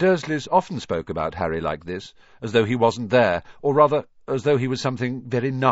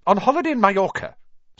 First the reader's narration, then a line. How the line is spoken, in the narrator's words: snapped Aunt Petunia